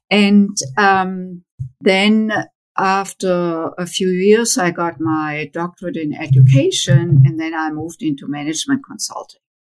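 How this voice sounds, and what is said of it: German accent in English. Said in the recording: “As you can tell from my accent, I grew up in Germany”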